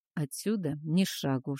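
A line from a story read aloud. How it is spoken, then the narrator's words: Whisper. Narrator (Russian): шепнул мне Бура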